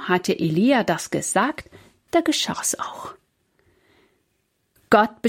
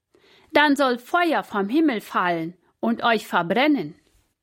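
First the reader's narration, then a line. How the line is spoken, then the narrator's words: Called out. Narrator (German): rief er zu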